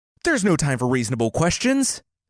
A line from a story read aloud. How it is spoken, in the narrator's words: his men shouted